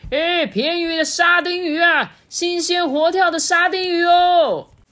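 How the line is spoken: Distant hawker's cry. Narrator (Chinese): 不知道从什么地方传来了叫卖沙丁鱼的声音

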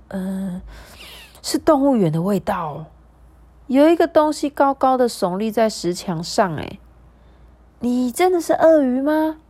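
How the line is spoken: Crocodile behind a wall. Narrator (Chinese): 说话的应该也是另外一只鳄鱼，它在墙的另外一边

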